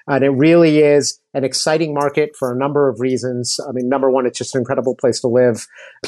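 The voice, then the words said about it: American accent. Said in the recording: “So you hear my accent. I'm not African. I'm American”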